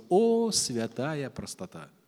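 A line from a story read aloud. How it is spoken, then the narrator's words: Gentle pastoral tone. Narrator (Russian): произнес ласково по-пасторски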